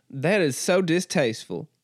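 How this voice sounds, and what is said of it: Put-on aristocratic Southern accent. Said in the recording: “this is like aristocracy Southern that I'm doing”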